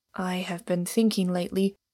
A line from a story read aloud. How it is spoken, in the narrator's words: said Inglewood in a low voice